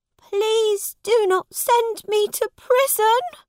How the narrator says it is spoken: cried Tom

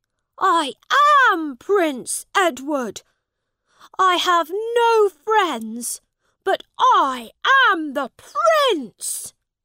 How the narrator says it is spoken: he shouted

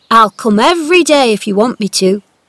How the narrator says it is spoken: he answered

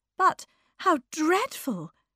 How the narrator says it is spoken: cried

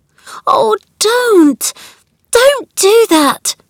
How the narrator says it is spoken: cried out

